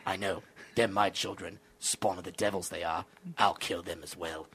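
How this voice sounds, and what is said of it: Good Jason Statham impression. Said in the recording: “Wow, that's a pretty good Statham, dude. ... That's a great impression.”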